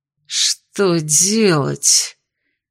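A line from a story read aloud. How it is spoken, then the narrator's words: Hissing to himself. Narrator (Russian): Прошипел он, словно беседа с самим собой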